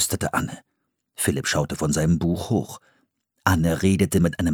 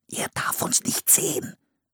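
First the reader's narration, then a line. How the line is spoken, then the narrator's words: Whisper. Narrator (German): flüsterte Philipp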